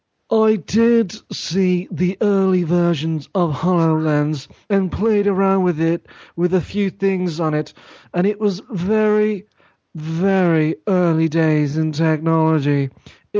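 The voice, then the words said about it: Imitates another person's voice. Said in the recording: “my Molyneux impression coming up. ... I might do a genuine Molyneux impression.”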